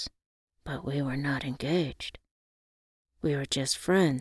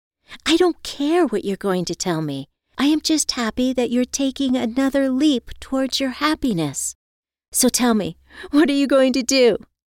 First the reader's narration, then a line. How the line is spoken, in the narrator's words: asked excitedly